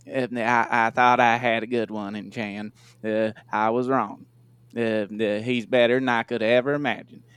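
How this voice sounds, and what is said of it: Imitates another person's voice. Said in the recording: “I'll read that in a Jerry accent.”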